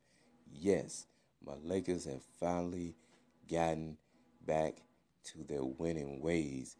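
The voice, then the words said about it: Happy, upbeat voice. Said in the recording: “I'm very happy. I know you can tell it in my voice”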